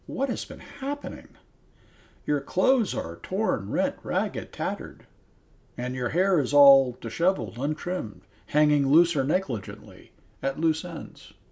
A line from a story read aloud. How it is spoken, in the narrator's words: she exclaimed